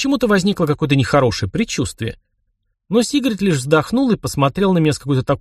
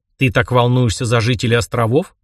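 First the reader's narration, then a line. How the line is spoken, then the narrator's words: Scoffing snort. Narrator (Russian): хмыкнул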